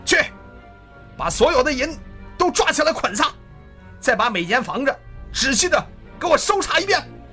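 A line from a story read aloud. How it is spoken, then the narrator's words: Commanding orders. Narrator (Chinese): 骑兵连长 告诉他们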